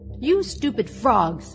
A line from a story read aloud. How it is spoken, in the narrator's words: cried she